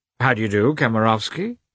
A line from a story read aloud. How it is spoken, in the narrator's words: he added, coldly